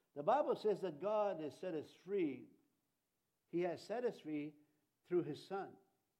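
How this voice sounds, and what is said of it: Strong accent. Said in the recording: “my accent, I have a strong accent”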